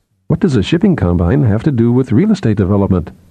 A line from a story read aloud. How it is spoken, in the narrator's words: Sephira asked